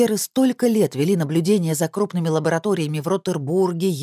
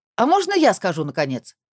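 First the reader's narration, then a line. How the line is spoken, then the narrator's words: Barked. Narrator (Russian): рявкнула Ляля Бимбикин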